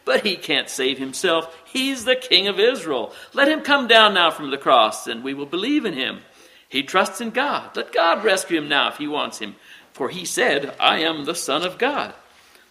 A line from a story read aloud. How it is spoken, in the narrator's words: mocked him